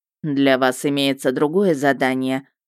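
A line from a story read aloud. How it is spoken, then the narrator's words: Flat, even explanation. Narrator (Russian): объяснил Мердок тем ровным тоном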